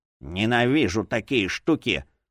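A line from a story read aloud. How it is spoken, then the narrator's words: Grumbling. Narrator (Russian): проворчал один другому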